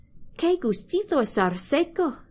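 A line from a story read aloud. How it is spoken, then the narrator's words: Exclaimed. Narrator (Spanish): exclamó Oliver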